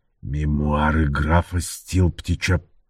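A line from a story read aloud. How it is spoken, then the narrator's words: Hissed. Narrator (Russian): прошипел он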